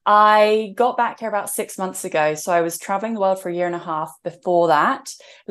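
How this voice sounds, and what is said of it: English accent. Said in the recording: “I'm in England right now, and that's also where I was born, as you could tell from my accent.”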